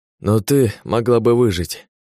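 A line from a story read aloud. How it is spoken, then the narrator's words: Hoarse rasp. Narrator (Russian): прохрипел он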